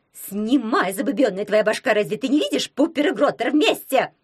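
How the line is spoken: Howling. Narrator (Russian): взвыла она

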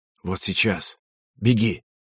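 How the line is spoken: Whisper. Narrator (Russian): Юси Пекало шепнул

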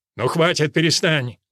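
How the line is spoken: Bark. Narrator (Russian): рявкнул Джеральд

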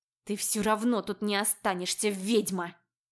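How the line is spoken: Hateful, through gritted teeth. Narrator (Russian): Сквозь зубы процедила вобла, не скрывая своей ненависти

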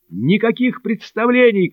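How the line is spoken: Group shouting. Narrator (Russian): кричали они

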